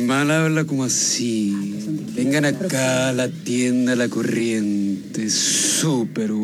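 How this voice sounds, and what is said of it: Usual voice. Nothing is said of it.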